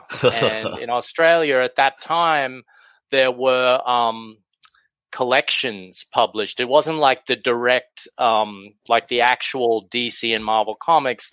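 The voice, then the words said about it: Australian accent. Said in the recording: “you can probably tell from my accent, I'm from Australia”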